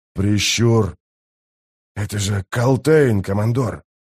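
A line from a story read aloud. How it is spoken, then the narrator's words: Old man wheezing. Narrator (Russian): прохрипел старик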